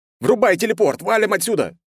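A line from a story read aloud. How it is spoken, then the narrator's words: Yelled. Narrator (Russian): завопил я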